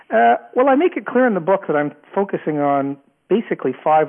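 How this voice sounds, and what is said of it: Canadian accent. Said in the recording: “I actually have a Canadian accent”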